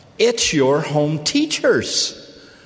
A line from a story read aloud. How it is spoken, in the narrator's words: Her friend cried out